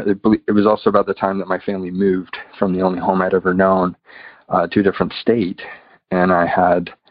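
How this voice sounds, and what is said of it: American accent. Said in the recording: “I'm from the United States, if you can tell by my accent.”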